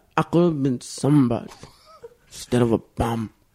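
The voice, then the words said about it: Imitates another person's voice. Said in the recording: “very bad impression ... you just did Schwarzenegger doing that line ... That's like Pacino Scarface doing it, but it's much closer.”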